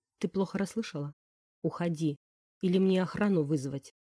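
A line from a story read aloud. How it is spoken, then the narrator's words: Cold, uncompromising. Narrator (Russian): Холодным тоном, не расположенным к переговорам, спросил Константин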